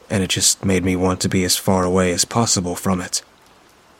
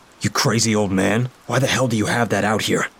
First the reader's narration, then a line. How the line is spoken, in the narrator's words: I asked angrily